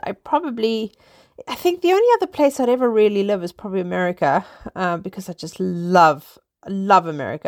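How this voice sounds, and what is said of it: South African accent. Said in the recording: “that's not a British accent. No, it's not. I am originally South African.”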